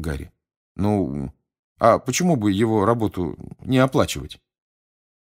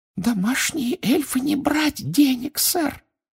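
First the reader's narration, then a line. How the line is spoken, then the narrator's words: Muffled squeak. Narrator (Russian): приглушенно пропищала она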